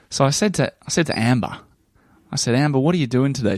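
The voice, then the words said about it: Broad Australian accent. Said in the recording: “Maybe you could even turn on the Australian accent a bit more.”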